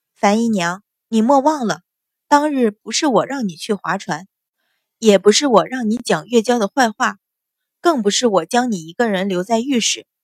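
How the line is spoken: Scornful, sneering. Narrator (Chinese): 阮云欢见他脸色一阵青一阵白，不屑的摇头，冷笑道

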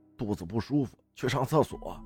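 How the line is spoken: Hurried. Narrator (Chinese): 我急忙说

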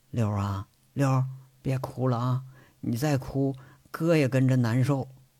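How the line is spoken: Murmuring softly. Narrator (Chinese): 轮子拉着贼六的手，喃喃地说

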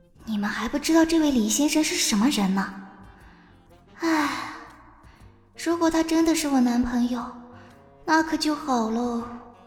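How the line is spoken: Inner muttering. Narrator (Chinese): 他心里嘀咕着

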